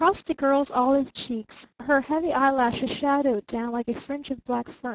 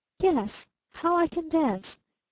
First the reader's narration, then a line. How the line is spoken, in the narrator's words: she murmured almost inaudibly